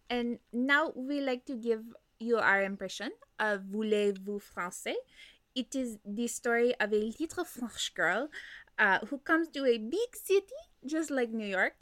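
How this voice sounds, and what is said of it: Put-on French accent. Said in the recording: “I can do the stupid little accent. ... You have a... such a fun little French accent.”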